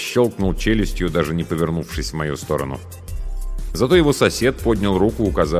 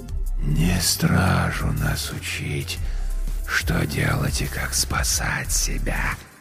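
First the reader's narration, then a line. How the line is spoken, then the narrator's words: Rustling whisper. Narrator (Russian): прозвучал у меня в голове шелестящий шепот короля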